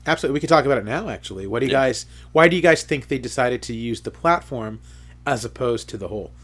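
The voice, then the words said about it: Slightly raspy, coughy voice. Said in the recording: “I'm a little coughy, and my voice is a little raspy.”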